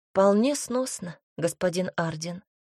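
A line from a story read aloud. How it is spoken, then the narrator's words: Quiet answer. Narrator (Russian): ответила тихо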